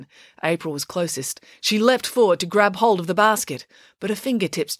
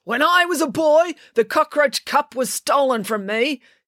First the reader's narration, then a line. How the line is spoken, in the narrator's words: yelled Coach Voss, his voice full of emotion